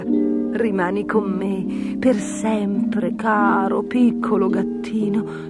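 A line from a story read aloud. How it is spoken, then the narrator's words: Lady whispering. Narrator (Italian): sussurrò la dama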